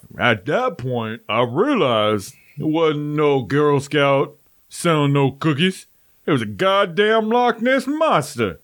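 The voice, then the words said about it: Imitates another person's voice. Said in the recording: “it's a good impersonation”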